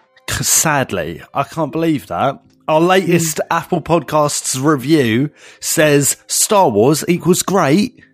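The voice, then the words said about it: Essex English accent. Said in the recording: “He's got an Essex accent, sadly”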